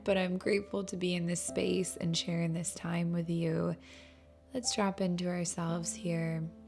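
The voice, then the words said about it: Slightly unwell, strained voice. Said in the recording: “I'm a bit under the weather, so my voice is still not 100%”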